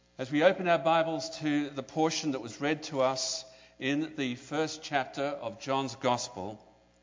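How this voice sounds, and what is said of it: Very strong accent. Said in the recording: “I have a very strong accent ... My accent, I understand, is strong”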